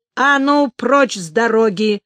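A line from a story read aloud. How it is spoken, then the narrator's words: Growled bark. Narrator (Russian): рыкнул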